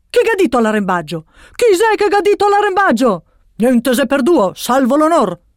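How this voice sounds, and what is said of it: Exaggerated Venetian accent. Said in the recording (Italian): “il pirata, con un incredibile accento veneziano”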